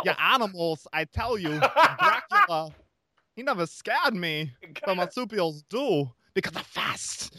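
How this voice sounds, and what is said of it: East Coast accent mixed with Valley Girl. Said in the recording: “the secret to doing Christopher Walken... you take obviously take like an East Coast accent, and then you mix it with Valley Girl... you've nailed it”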